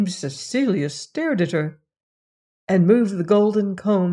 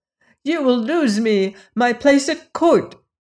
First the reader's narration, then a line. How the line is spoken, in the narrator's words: she cried